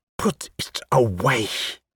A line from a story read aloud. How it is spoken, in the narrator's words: she hissed